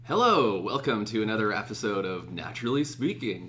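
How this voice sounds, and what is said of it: North American radio announcer voice. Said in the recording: “That's my radio voice. ... You sounded like proper, like, radio, North American radio station.”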